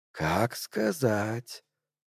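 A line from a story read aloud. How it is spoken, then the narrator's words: Ingratiating rustling whisper. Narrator (Russian): вкрадчиво прошелестел он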